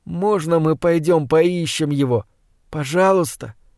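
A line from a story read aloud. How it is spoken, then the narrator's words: Whiny plea. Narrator (Russian): прохныкал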